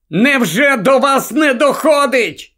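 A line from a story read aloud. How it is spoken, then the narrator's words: Shout. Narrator (Ukrainian): крикнув Гаррі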